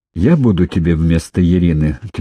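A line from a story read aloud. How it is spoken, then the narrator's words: Firm calm reply, girl. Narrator (Russian): твердо и спокойно ответила девушка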